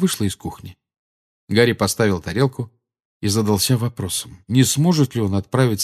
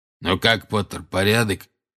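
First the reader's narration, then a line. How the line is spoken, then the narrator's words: Hoarse rasp. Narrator (Russian): прохрипел Грюм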